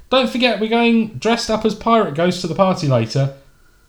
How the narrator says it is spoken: she shouts back at Todd

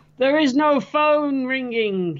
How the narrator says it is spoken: he screams

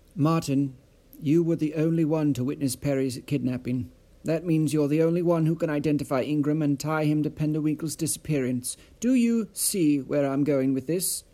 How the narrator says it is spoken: asked

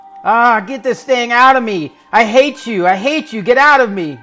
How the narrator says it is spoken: mother screams

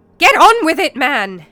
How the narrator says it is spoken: exclaimed Gawain angrily

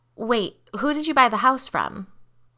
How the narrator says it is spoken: Liz asked

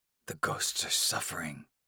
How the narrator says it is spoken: the elders whisper

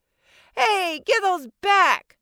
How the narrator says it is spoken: I screamed

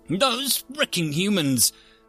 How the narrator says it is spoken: the delegate from the Hellion Collective exclaimed

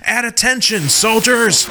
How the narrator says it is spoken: in a much louder voice, he says

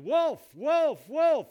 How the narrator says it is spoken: he yelled

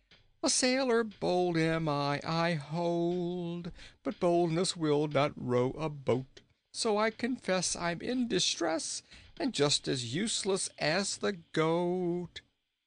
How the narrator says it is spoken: he sang in a merry voice

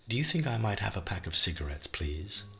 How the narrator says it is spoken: in her best prim voice, Viola dared to ask

